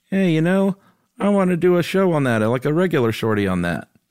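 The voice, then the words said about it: Imitates another person's voice. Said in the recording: “That was a great Josh impression.”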